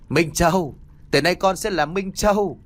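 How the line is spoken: Loud laughing. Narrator (Vietnamese): Thức cười lớn

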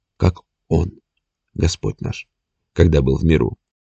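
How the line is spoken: Quiet addition. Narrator (Russian): тихо добавила

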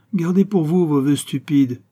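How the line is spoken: Angry exclamation. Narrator (French): s'écria-t-il avec colère

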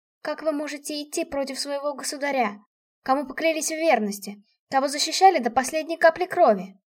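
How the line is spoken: Hoarse with emotion. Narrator (Russian): охрипла от волнения

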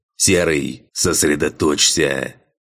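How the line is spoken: Growling command. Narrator (Russian): рыкнул Филотрим

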